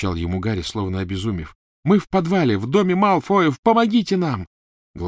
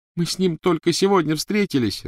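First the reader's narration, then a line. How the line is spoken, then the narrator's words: Sobbing. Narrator (Russian): рыдала Гермиона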